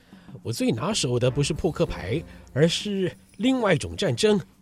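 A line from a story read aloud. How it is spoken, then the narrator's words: Cold. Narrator (Chinese): 霍格冷冷地说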